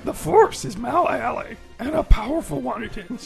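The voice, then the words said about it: Yoda character voice. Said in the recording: “let's see who can do the best Yoda ... Do the best Yoda I can.”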